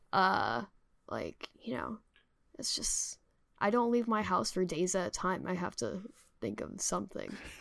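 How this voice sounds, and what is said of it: Slightly stuffy, congested voice. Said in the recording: “I was sick all last week, which is why I sound like a little stuffy”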